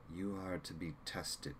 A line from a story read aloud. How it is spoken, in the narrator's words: said flatly